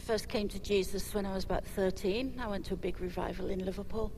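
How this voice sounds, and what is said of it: English accent. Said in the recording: “you have a British accent, English accent, not Scottish, English”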